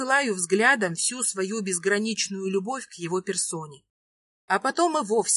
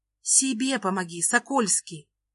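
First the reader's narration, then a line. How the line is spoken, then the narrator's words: Quiet, not overheard. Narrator (Russian): Говорю тихо, чтобы зрители нас не услышали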